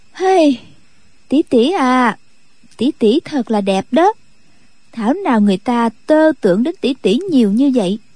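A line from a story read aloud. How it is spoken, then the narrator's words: Sighing. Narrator (Vietnamese): Khúc Phi Yên thở dài nói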